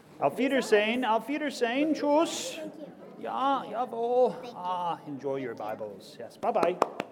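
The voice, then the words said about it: Character voice with put-on German accent. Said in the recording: “by that Martin Luther's accent, he was 50% German 25% Scottish and 25% Norwegian”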